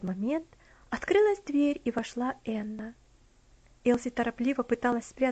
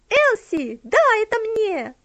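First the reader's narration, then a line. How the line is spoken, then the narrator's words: Shout. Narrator (Russian): она закричала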